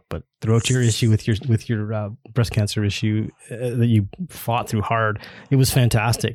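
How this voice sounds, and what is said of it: Choked-up, emotional voice. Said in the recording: “I'm getting choked up,”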